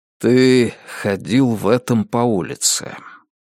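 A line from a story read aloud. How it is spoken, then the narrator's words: Soft remark. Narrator (Russian): заметил Грег также мягко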